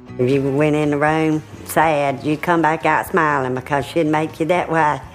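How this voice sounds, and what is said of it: Strong Mississippi Southern accent. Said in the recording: “the cutest Mississippi accents you have ever heard, but they are hard to understand ... a Southern accent”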